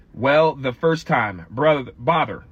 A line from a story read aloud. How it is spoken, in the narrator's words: said Pooh